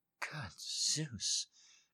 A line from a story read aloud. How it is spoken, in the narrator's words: she muttered absently